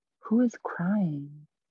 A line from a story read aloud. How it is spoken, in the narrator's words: Narottam was startled by a heavy sigh when someone asked